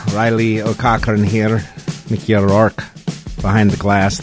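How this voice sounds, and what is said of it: Poor put-on Irish accent. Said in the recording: “The accent really hasn't gotten any better this morning”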